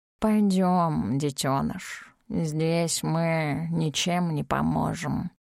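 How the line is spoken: Grumbled. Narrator (Russian): пробурчал Кусь

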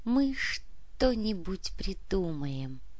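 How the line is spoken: Whisper. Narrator (Russian): прошептала Анна

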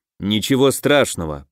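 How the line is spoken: Warrior's grumble. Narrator (Russian): проворчал воин

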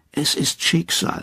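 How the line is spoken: Murmuring. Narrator (German): murmelt einer

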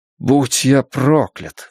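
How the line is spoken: Exclaiming. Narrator (Russian): воскликнул Стью

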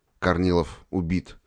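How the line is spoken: Trembling voice. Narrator (Russian): дрогнувшим голосом добавил

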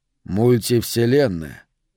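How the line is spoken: Muttering. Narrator (Russian): пробормотал я

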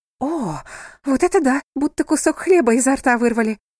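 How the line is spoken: Exclaimed. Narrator (Russian): воскликнула миссис Уилкинс

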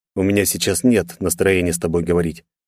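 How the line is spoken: Dry, flat. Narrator (Russian): ответил Андрей сухо и безэмоционально

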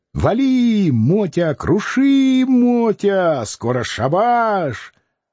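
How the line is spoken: Old man's squealing egging-on. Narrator (Russian): старичок подзадоривал его, взвизгивая

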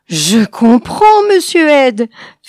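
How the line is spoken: Panting. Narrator (French): fit Honeycutt haletant

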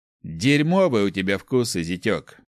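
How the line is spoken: Amused snort. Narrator (Russian): хмыкнул Иль

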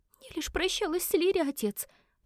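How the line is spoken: Tearful babbling. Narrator (Russian): пролепетала Мисси, быстро вытирая глаза

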